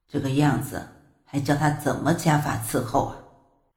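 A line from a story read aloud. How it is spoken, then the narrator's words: Inner sighing thought. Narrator (Chinese): 他忍不住在心里叹了口气，说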